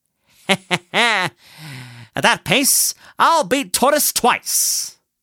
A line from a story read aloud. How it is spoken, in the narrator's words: Chuckling, Hare muttered